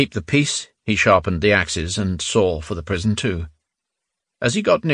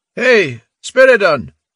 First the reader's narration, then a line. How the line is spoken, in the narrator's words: Sologdin called out impatiently